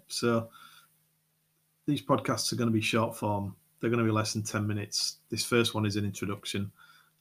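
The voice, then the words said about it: Yorkshire English accent. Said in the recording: “if you like the Yorkshire accent”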